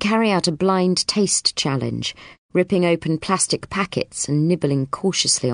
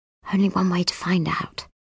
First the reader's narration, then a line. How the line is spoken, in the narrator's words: Justin whispers back